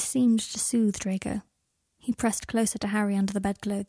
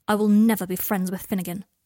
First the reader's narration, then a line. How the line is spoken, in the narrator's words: said Draco sharply